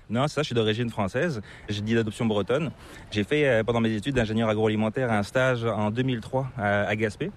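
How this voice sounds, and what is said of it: Slight accent, not Québécois. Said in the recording (French): “tu as une petite pointe d'accent qui est assez difficile de deviner... c'est pas l'accent québécois”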